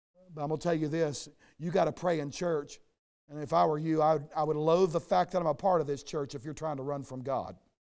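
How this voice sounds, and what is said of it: Hoarse, strained voice. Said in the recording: “this hoarse voice of mine, that you're waiting for my throat to explode”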